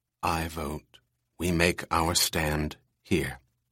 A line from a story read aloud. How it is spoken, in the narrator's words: In a low voice, Pris said